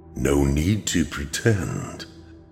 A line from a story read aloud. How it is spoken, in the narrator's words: the figure said in a warm, mellow voice